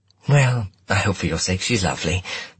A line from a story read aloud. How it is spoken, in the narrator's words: my mum said quickly